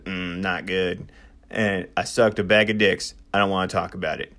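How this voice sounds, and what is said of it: Imitates another person's voice. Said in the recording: “I'll try to do an impression.”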